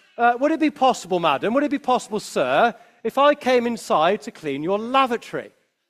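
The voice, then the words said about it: Regal, posh kingly voice. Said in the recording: “in his most kingly voice”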